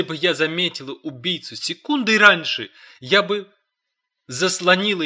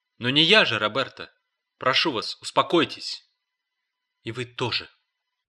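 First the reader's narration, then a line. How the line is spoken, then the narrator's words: Whisper. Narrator (Russian): прошептала она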